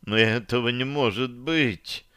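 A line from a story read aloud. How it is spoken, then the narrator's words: Moaning. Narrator (Russian): простонала Таша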